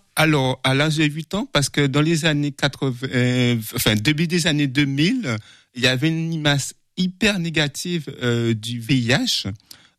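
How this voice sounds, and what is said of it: Slight Guadeloupean French accent. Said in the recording (French): “Je suis né en Guadeloupe. ... ça s'entend un petit peu. ... C'est sur l'accent.”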